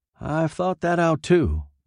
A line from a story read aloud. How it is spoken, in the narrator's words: Boyette said